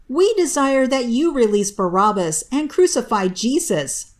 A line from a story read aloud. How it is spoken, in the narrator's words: All the people raised their voice and said